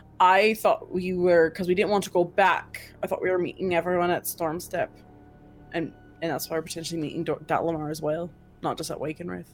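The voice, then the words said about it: Speaks in a put-on accent. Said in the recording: “I'm stuck in this accent. I'm sorry.”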